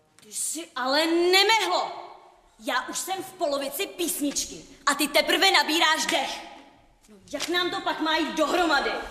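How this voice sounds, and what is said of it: Shouting angrily. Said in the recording (Czech): “Nekřič na mě!”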